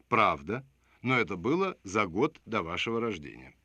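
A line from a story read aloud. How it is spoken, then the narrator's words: Soft reply. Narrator (Russian): Я мягко ответил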